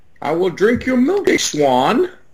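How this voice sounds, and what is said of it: Weird impression, sounds like Bane. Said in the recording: “That was a weird impression. I kind of sound like Bane.”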